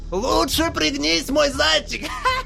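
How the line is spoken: Shout, shrill hysterical giggle. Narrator (Russian): крикнул он и визгливо истерически захихикал

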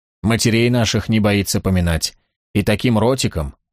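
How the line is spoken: Soft. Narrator (Russian): мягко закончил он

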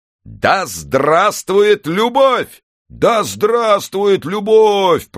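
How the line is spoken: Thundering stadium crowd. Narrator (Russian): прогремел стадион

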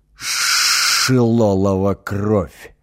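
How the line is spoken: Woman hissing in pain. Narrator (Russian): шипела от боли супруга управляющего

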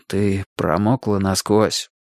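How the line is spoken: Breathed out. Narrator (Russian): выдохнул Валерий

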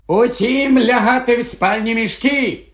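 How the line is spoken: Shouted. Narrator (Ukrainian): крикнув Персі

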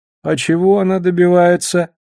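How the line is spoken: Dejected question. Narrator (Russian): уныло спросил Шет

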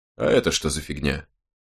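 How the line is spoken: Mutter. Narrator (Russian): пробормотал Страйк

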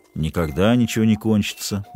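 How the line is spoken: Gloomy declaration. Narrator (Russian): мрачно заявил доктор

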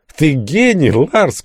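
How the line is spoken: Shouting over clanging noise. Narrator (Russian): кричал с водительского места Глист, перекрикивая громыхание железа

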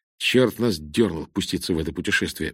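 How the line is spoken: Grumbled. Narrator (Russian): буркнул он

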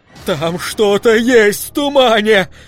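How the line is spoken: Shout. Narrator (Russian): закричал он

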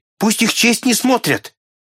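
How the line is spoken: Muffled shout. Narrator (Russian): Консель кричал, закрыв себе лицо руками

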